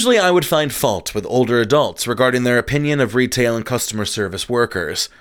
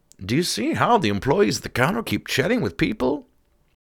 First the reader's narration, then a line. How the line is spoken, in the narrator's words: The older couple in front of me began to mutter